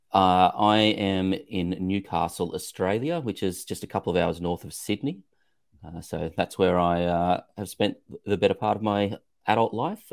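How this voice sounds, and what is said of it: Slight accent. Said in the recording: “there's a slight accent there”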